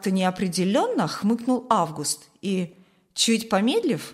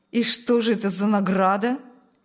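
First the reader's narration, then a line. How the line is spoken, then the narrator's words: Ironic snort. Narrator (Russian): снова иронично хмыкнул Шталь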